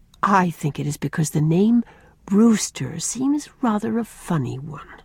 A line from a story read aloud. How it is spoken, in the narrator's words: said Rosemary gravely